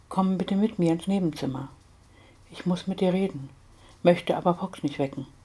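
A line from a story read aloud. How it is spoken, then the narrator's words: Whispering inner voice. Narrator (German): flüsterte eine Stimme in ihrem Kopf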